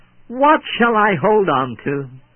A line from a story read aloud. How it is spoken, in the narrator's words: the dear young boy cried back